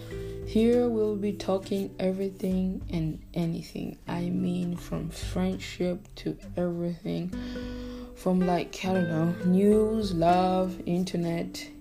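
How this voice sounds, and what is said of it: African-accented English. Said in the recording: “I'm a African girl from the block. And about that, I'm sorry if I have an accent”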